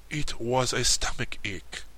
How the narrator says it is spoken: replied the king with a sigh

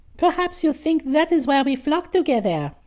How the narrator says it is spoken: the birds burst into a chorus of laughter, and one of them said

